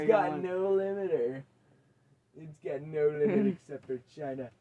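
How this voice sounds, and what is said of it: Trump-inspired put-on accent. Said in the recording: “What accent are you going with right now? ... I think it was at least inspired by Trump.”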